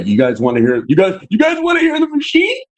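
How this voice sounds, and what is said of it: Imitates another person's voice. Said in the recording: “That's my impersonation of Bert ... That's actually really good ... He sounded like him for a second”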